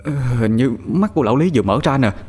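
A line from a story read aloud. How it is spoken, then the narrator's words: Frightened stammer. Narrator (Vietnamese): Thằng Toàn lắp bắp nói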